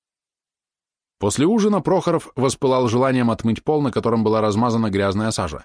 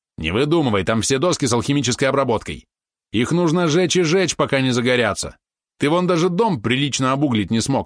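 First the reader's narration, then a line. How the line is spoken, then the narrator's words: Snapping back irritably. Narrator (Russian): огрызнулся Валерон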